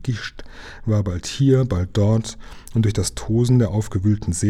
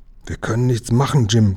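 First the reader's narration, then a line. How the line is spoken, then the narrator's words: Panting. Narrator (German): keuchte er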